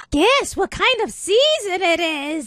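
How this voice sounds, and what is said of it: Put-on witch voice. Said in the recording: “witch voice”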